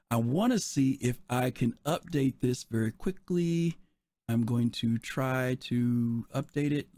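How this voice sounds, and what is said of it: Raspy, hoarse voice. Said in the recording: “Please forgive my raspy voice.”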